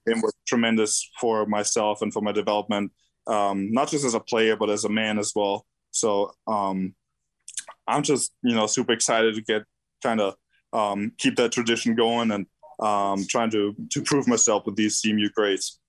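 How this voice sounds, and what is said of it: Austrian-accented English. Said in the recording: “you can tell that accent is definitely not from here. Now, you're from Austria.”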